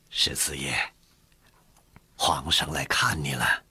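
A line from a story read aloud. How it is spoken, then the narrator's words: Gentle, soft. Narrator (Chinese): 傅恒柔声地说道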